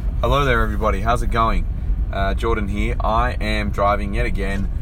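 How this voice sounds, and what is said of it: Hoarse, slightly croaky voice. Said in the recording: “I had a horrible cold this week, and really fucked up my voice. As you can hear, I'm still a little bit hoarse ... my voice and it sounding croaky”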